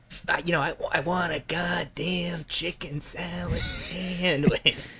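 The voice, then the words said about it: Jack Nicholson impression. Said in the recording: “every Jack Nicholson performance ... the Nicholson shtick ... it helps that he's somebody you can do an impression of.”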